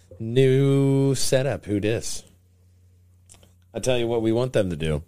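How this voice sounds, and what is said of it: Unusually deep, dry voice. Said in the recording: “my voice is so deep, because I desperately need a drink”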